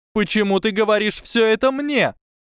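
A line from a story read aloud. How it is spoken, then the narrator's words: Shouted. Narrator (Russian): крикнула мисс Морган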